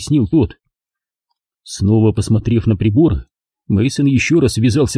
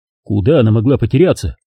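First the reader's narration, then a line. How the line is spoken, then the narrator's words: Plain. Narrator (Russian): спросил Холман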